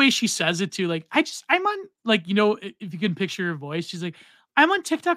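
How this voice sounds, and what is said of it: Usual voice. Nothing is said of it.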